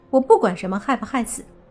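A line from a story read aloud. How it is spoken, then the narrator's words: Cold girl. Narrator (Chinese): 那女孩却是冷声说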